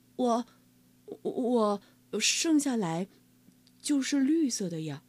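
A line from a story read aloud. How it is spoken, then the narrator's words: Embarrassed, quiet. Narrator (Chinese): 哈瓦尔不好意思的低声说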